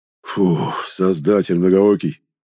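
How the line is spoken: Strangled wheeze. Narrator (Russian): сдавленно прохрипел Нест

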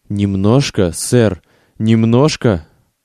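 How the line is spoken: Forced out with effort. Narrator (Russian): выдавил он, наконец, из себя

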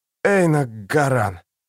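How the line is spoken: Dry hoarse voice. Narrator (Russian): Его голос был сухим и хриплым

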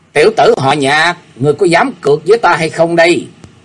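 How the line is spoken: Shouted in a raised voice. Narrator (Vietnamese): y bèn cao giọng quát lên

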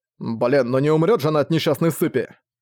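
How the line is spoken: Irritated reply. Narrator (Russian): раздражённо ответил Зориан

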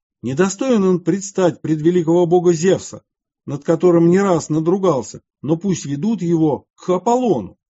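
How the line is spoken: Angry shouting. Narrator (Russian): Те, увидев его, с гневом закричали

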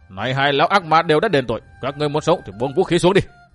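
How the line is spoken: Old man's shout. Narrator (Vietnamese): lão quát bảo phe đối phương

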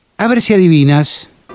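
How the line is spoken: Shouting. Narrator (Spanish): Mark y Amy ... gritando

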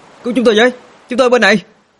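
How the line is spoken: Loud shout. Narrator (Vietnamese): Minh Long hét lớn

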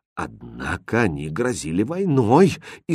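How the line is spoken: Frightened. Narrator (Russian): испуганно сказал король

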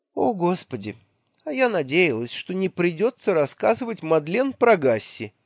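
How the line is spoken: Speaking with a feigned sigh. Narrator (Russian): притворно вздохнув, проговорила

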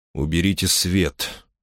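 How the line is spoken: Quiet command. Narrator (Russian): тихо велел

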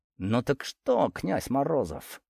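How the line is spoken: Through clenched teeth. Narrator (Russian): Процедила юная авантюристка сквозь зубы

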